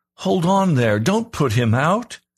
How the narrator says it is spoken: I called out

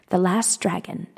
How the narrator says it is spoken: Ser Jorah's voice whispered faintly

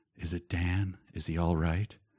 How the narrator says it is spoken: whispered words

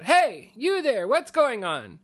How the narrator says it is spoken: we hear someone shout

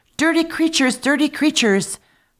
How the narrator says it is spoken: the princess was so enraged at the sight of them that she shrieked out

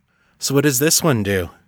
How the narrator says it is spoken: John asked Artax

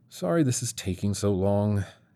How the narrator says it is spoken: muttered

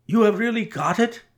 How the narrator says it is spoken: he cried, looking eagerly

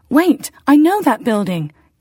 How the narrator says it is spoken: Catherine exclaimed

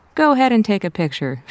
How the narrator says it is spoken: she laughed to herself

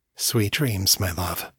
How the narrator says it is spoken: whispered

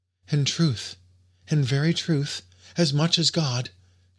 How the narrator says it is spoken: she cried

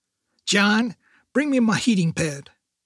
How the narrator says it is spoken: his grandmother shouted

